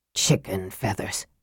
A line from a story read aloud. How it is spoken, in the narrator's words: he muttered scathingly